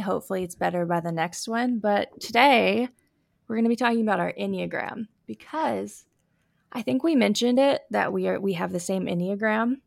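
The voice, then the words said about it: Scratchy, sniffly voice. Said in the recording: “you can hear it in my voice ... I am super scratchy in my voice, and I'm a little sniffly”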